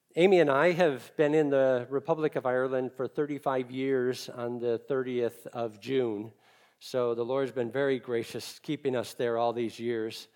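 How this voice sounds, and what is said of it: Chicago accent. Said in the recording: “I'm originally from Chicago, you can probably tell by my accent”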